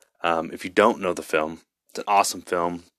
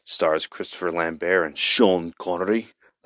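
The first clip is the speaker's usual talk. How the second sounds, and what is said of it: Poor imitation of an accent. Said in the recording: “That was a terrible, terrible take on an accent”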